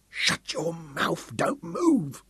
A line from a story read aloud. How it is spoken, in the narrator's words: Sam moaned